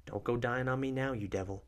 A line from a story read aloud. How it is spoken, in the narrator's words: Isla whispers